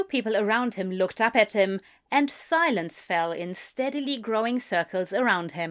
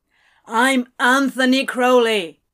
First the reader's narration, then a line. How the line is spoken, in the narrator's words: he said as loudly as he could